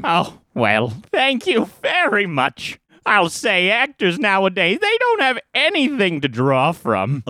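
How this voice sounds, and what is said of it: Imitates another person's voice. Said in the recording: “does Nathan Lane.”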